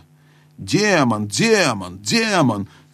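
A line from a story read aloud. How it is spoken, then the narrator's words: Shrill yelling. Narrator (Russian): визгливо орал принц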